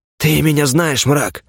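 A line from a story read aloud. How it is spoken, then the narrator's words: Hoarse rasp. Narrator (Russian): прохрипел первый следопыт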